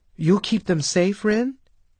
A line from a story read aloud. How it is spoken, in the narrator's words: Mickey asked anxiously